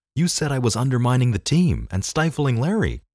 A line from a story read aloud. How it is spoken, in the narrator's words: I blurted out